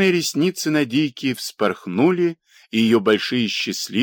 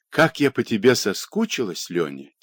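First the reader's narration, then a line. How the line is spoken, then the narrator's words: Quiet, wistful. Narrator (Russian): тихо проговорила Надийка, и глаза ее стали грустными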